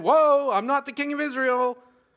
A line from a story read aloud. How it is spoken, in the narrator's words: Jehoshaphat called out and said